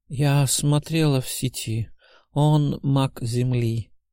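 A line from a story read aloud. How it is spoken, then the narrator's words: Sleepy voice. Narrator (Russian): сонным голосом отозвалась предсказательница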